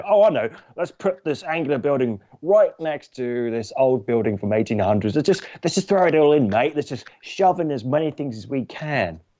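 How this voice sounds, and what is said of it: Put-on Australian accent. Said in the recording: “Perfect. Perfect execution of the accent. ... I sort of understand why some people might think I'm Australian.”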